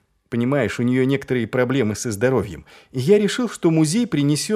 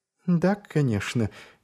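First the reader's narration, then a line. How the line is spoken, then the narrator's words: Quiet reply. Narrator (Russian): тихо откликнулась она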